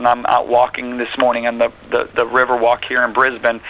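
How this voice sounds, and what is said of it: American accent. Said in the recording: “my nice American accent”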